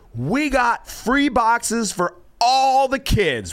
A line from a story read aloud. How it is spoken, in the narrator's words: they yell, and they say